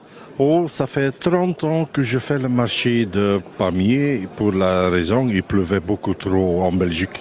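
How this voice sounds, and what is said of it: Flemish accent in French. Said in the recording (French): “Vous avez un accent qui ressemble pas tellement à l'accent du coin ... j'ai pas l'accent du pays, mais j'ai un accent flamand. De Courtrai, Belgique”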